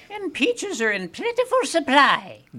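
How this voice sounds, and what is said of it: Impression of radio host Joyce Lamont. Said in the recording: “That's a very good impression”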